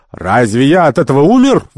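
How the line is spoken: Shout. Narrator (Russian): выкрикнул Керабан

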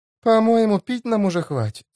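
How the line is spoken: Sighing. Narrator (Russian): вздохнула я

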